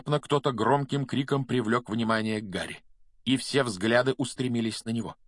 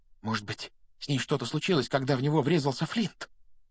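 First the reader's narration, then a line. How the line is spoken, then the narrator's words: Whispered. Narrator (Russian): прошептал Симус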